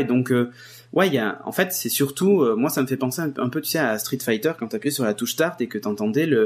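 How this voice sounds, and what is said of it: Usual voice. Nothing is said of it.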